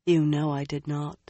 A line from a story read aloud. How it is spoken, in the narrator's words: Moiraine said gently